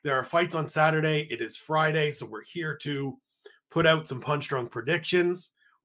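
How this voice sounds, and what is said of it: Slightly hoarse voice. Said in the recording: “I'm still a little hoarse. Still got a little bit of a head cold lingering”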